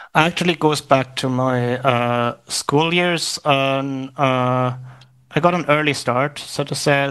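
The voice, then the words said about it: Slight Irish accent. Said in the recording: “you developed a little Irish accent”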